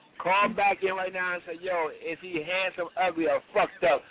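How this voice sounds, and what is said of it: New York accent. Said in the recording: “you get in New York coming out of them... You can hear that New York in them”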